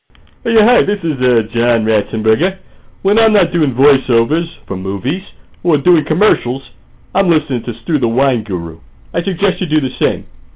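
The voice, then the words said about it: Imitates another person's voice. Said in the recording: “No actual celebrities were used in the making of this promo. Only celebrity impersonators.”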